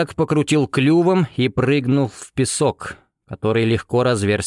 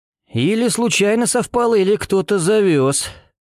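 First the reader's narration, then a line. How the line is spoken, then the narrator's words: Nervous chuckle. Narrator (Russian): Пламенев нервно хохотнул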